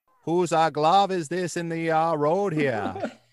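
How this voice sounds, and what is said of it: Put-on accent, well done. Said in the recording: “Where was that accent earlier? That was great”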